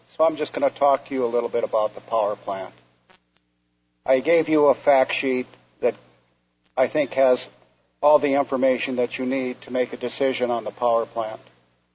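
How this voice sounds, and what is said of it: Weak voice from a cold. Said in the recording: “my voice is very weak today. I've caught a cold”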